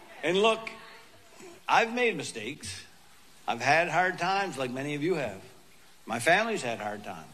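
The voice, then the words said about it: Funny regional accent. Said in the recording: “a working class guy from Allegash with a funny accent”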